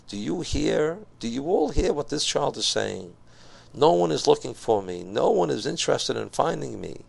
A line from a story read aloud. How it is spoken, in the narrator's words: the Rebbe exclaimed